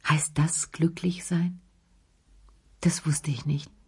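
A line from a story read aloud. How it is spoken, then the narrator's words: Very softly. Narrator (German): sagte er ganz leise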